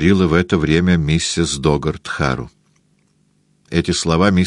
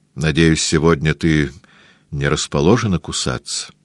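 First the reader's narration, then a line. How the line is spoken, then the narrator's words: Grim joking. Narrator (Russian): мрачно пошутил Джон Д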